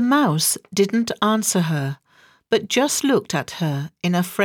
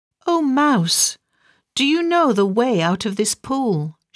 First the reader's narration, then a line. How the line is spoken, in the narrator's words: she asked